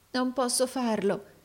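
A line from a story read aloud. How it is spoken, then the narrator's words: Trembling exclamation. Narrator (Italian): esclamò il compagno tremante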